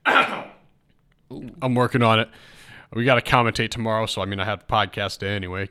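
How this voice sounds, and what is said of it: Hoarse, rough voice after illness. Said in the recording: “I was coughing nonstop, and you can still hear it in my voice. My throat's still a little messed up.”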